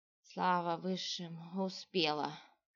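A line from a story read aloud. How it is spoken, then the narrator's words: Tired woman's exhale. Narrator (Russian): Устало выдохнула женщина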